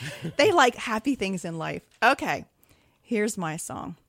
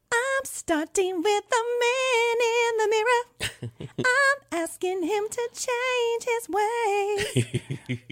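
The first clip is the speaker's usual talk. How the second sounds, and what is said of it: Imitates another person's singing voice. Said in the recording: “my Michael Jackson impression”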